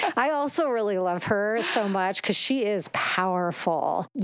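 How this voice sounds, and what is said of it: Usual voice. Nothing is said of it.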